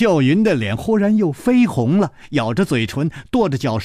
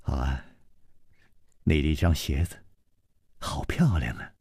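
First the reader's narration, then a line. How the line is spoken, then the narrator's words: Soft, laughing. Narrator (Chinese): 楚留香笑了，轻声说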